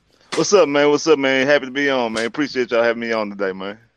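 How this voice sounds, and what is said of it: Houston-area Texan accent. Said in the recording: “Are you from Houston, bro? ... the second I hear your accent, you sound a little bit like Jay Prince.”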